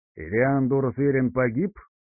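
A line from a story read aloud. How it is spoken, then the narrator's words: Snorting inquiry. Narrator (Russian): хмыкнув, осведомился патриарх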